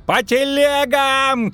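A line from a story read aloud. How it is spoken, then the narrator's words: Shouted. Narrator (Russian): крикнул Козаед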